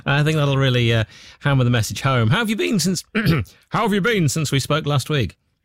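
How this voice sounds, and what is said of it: Hoarse, failing voice. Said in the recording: “just losing my voice.”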